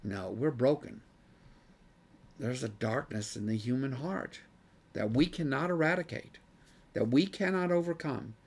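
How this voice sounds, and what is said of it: Strained, fading voice. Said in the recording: “I'm getting worked up here. I'm losing my voice.”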